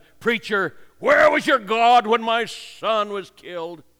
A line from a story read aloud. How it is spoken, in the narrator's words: the father fairly shouted at him